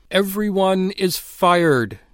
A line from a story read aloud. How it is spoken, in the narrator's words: cried into the silence, his voice like a plague of tongues